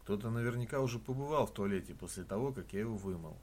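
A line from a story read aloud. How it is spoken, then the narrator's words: Plain. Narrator (Russian): сказал я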